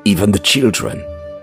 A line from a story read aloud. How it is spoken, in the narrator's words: said, almost choking up